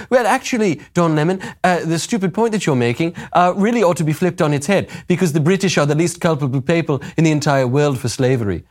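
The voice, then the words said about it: Rough put-on British accent. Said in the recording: “I'm kind of doing a little bit of a Paul McCartney man ... I don't know that I can really do a proper British accent like she's doing.”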